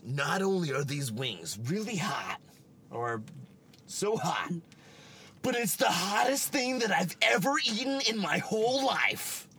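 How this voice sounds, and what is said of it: Impression of the Man vs. Food host. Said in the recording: “do a good impression of him”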